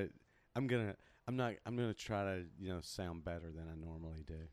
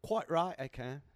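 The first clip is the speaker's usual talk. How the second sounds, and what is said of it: Put-on British accent. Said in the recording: “Can you do a British accent for the whole thing?”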